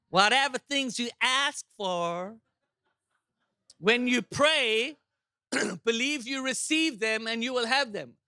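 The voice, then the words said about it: Put-on American accent. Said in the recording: “do you like my American accent?”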